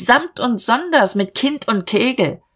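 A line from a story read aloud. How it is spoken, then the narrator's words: Called out. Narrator (German): rief Dieterich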